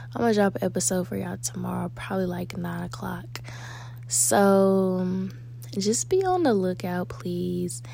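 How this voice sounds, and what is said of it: Sleepy, tired-sounding voice. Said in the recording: “I'm sleepy. And I know y'all can hear it in my voice”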